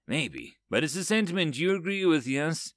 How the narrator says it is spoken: Biologic chuckled digitally again

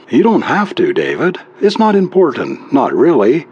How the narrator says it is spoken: sighed deeply

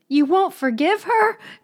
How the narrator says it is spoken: cried with frantic reproach

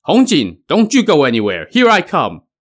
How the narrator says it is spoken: Mother Fiery Spirit shouting

